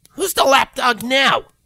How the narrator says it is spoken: Rainbow snapped

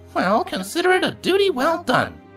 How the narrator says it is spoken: said cheerfully

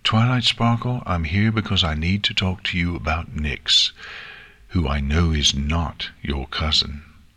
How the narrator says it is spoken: Princess Celestia continued calmly

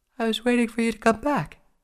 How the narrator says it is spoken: she said with a yawn

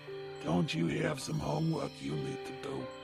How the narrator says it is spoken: the stallion grumbled

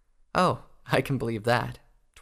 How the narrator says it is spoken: Twilight said with a giggle

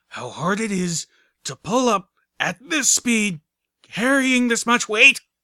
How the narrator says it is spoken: the griffin carrying Velvet Remedy grunted

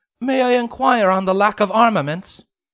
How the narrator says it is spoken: Celestia called out

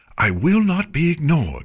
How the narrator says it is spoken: she yelled

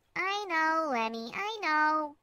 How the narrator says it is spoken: squeaked

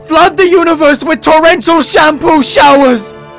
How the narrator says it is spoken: Luna yelled amidst a dust cloud

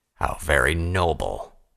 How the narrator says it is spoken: Vanguard growled

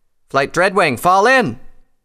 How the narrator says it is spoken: Tailwind shouted

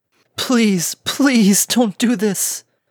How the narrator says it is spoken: The last pony sobbed through her last sweat and drops of blood

